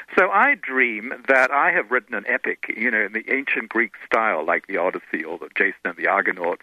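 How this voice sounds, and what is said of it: Anglo-Australian accent. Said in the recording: “a woman on the plane who talks just like me, the sort of Anglo-Australian accent, you're not quite sure where it's from”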